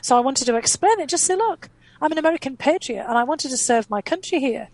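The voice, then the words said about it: Very distinctive accent. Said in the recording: “I had a very distinctive accent.”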